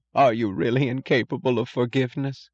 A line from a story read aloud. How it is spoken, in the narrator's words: With a look of stubborn bewilderment, with the last of her effort at self-deceit, she moaned in a voice of tearfully petulant reproach